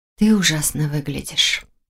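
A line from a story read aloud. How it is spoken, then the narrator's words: Whisper. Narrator (Russian): прошептала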